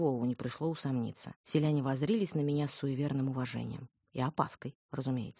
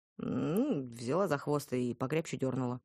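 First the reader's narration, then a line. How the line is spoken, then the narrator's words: Grim joking. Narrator (Russian): мрачно пошутила я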